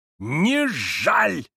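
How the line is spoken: Trembling shout. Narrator (Russian): закричал он, задрожав и побледнев

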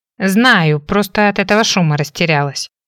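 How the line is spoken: Grumbling. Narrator (Russian): заворчала

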